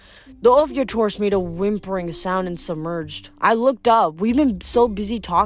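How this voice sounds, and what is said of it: Usual voice. Nothing is said of it.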